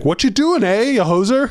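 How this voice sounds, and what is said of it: Put-on Canadian accent. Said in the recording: “he'll slip into his native Canadian accent”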